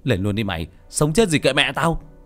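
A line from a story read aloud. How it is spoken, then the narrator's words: Shouted. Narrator (Vietnamese): Tôi quát lên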